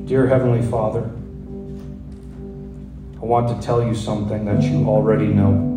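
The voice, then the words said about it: Slow, measured line-by-line reading. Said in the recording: “read it slowly, line by line”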